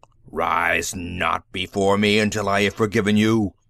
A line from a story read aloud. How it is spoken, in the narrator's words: Yat-Zar thundered